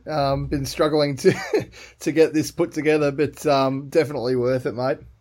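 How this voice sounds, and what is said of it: Strained, worn-out voice. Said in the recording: “my voice is a little bit worse for wear at the moment”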